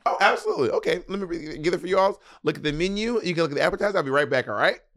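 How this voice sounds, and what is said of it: Perky customer service voice. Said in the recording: “my customer service voice? ... It's not just like your voice. It's just a little perkier.”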